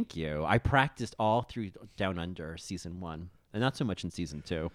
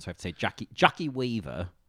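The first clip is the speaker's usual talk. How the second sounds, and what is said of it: Put-on Australian accent. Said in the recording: “that's a really great Australian accent”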